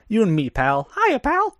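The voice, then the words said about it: Mickey Mouse cartoon voice. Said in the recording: “my Mickey impression”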